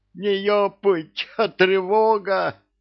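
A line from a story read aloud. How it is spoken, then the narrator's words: Yelling even louder. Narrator (Russian): Резинкин заорал еще громче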